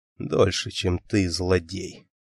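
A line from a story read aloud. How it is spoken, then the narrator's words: Whisper. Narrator (Russian): прошептал Леонард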